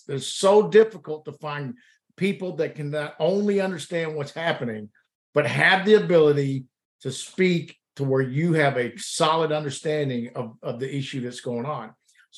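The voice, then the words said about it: Alabama accent. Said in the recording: “I just love hearing your accent, man. I love that. I love that accent. ... I can definitely tell you're not, from Alabama, or from Alabama for that matter too”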